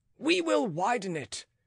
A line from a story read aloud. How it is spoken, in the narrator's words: cried the bystanders